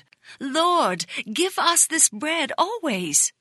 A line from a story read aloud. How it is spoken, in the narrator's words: some exclaimed